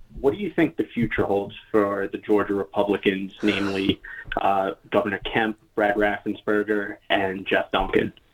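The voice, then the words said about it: New York accent. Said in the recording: “in New York, if you couldn't tell by his accent.”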